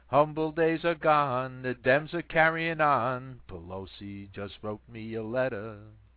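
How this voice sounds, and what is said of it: Sung in a put-on American accent. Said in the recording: “I'm going to do it for you in my American brogue”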